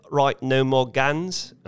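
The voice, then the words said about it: Attempted New Zealand accent. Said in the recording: “I'm sorry if that's a terrible New Zealand accent”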